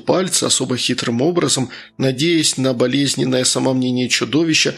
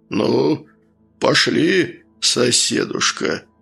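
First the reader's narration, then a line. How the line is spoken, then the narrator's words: Deep bass voice. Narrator (Russian): пробасил он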